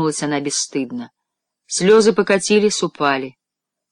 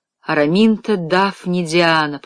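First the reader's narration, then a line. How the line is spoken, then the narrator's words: Moaning. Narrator (Russian): простонала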